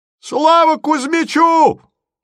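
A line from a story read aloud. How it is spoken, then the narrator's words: Thin lone yell in crowd. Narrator (Russian): тонко завопил в толпе одинокий голос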